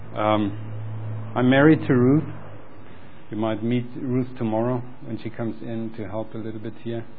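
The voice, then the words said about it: German accent. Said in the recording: “I am German, you hear it probably with my accent, although I try to hide it.”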